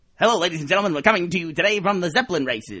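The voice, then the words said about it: Affected 1930s American announcer accent. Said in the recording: “the early American accent? I shouldn't say early American. Early this century, like 1920, 1930s. You know that accent that people use? ... like James Cagney ... like they'd always do it on sports casting, too ... It's all like very affected.”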